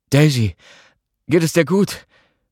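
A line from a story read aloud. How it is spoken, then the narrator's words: Breathless with pain. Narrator (German): Atemlos vor Schmerz stieß er hervor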